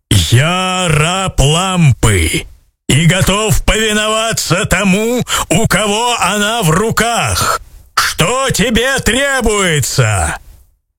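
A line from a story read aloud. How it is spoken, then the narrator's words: Thunderous giant voice. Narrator (Russian): колоссальный крылатый джинн и громовым голосом сказал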